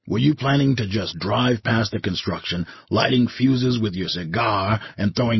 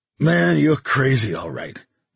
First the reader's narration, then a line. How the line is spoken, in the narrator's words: Magliori said when his laughter had subsided to chuckles and hitchings